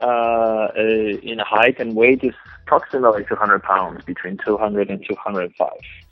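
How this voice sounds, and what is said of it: Polish accent. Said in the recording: “Obviously, there's an accent from where? ... I was born and raised in Poland.”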